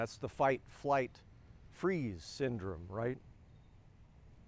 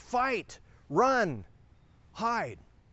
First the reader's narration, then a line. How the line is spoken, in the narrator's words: yelling